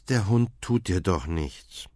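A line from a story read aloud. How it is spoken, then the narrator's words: Sighing mother. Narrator (German): Mama seufzt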